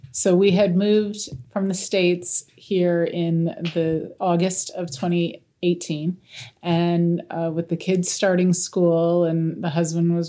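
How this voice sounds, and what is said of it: Non-native foreign accent. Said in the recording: “you'll soon hear from her accent that she's not a native of our shores”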